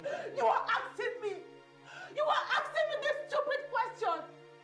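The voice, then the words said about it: Angry shouting. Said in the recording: “why are you shouting?”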